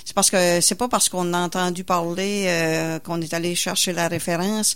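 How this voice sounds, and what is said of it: Regional Quebec French accent. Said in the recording (French): “Moi, je viens d'une région. ... on l'entend. ... Par votre superbe accent.”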